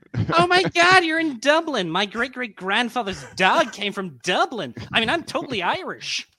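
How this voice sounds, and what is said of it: Put-on American accent. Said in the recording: “that's a good American accent. I like that. Was good.”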